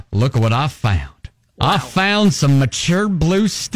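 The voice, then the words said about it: Put-on hillbilly accent. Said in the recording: “I'm using kind of a hillbilly accent”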